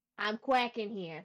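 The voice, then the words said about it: Put-on New York Bronx accent. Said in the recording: “He looks like he'd have a New York accent ... specifically Bronx, New York City”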